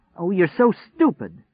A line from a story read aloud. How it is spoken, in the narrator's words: cried